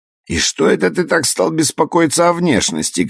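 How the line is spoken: Shouted from the kitchen. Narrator (Russian): крикнул он с кухни

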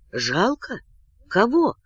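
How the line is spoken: Whispered in disbelief. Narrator (Russian): спросил шепотом Леон, зная кого, но отказываясь верить

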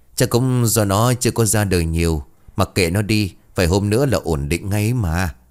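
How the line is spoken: Sighing. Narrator (Vietnamese): Tuyết bấy giờ liền thở dài

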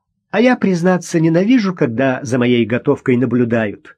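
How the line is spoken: Woman laughing. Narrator (Russian): женщина засмеялась

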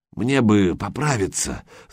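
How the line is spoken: Strained hoarse wheeze. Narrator (Russian): сдавленно прохрипел Гучко

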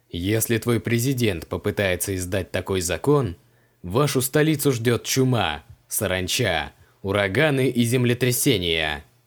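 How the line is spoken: Menacing wizard. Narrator (Russian): Грозно пообещал маг

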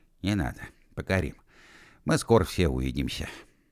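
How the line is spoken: Soft. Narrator (Russian): мягко сказал

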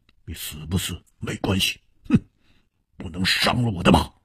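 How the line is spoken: Cold. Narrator (Chinese): 黑珍珠冷冷地说

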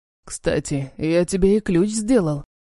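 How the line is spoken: Hoarse. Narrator (Russian): говорит хрипло

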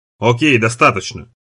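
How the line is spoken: Whisper. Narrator (Russian): шепчет Дюран

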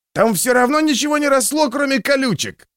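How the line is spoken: Shout from the back. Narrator (Russian): крикнул кто-то из задних рядов

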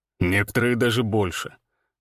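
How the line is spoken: Grim smirk. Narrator (Russian): мрачно усмехнулся Всеволод

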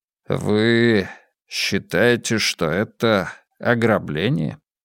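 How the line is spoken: Slow question. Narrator (Russian): медленно спросил я

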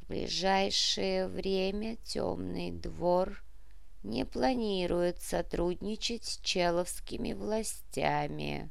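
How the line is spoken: Quiet. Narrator (Russian): негромко сказал князь

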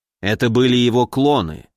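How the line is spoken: Calm. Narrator (Russian): спокойно сказал дедушка

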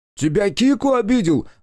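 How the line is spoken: Shouting. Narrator (Russian): закричал он

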